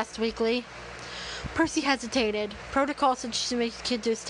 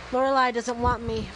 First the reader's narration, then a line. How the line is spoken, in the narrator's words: Molly said sadly